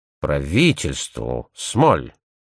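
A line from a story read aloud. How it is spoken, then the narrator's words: Muttering. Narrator (Russian): пробормотал он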